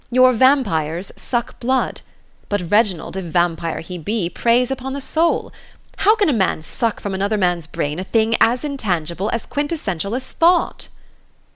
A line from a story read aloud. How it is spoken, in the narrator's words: observed triumphantly